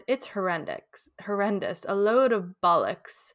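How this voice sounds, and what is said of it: Put-on British accent. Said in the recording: “I couldn't not read that word in a British accent. ... Ish, yeah.”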